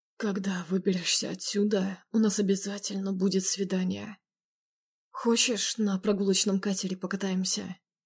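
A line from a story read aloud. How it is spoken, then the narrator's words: Hoarse close whisper. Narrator (Russian): Хрипло прошептал мне в губы Макаров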